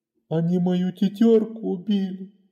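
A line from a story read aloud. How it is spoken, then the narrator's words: Sobbing. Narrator (Russian): всхлипывал он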